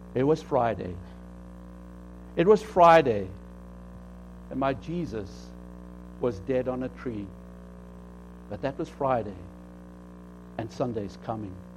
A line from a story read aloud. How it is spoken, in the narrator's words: The old pastor started his sermon real softly by saying